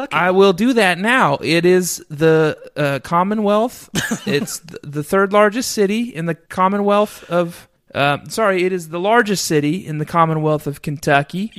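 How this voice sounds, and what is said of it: Put-on southern American accent. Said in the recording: “Oh, southern accent. ... You nailed it.”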